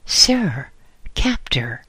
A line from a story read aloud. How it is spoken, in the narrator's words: I exclaimed